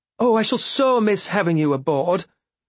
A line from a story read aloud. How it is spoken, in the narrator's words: Elise exclaimed to Amber